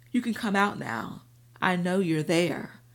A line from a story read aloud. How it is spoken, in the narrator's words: Antonio said smoothly